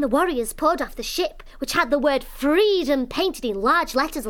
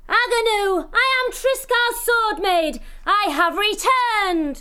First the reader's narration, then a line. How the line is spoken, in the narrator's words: shouting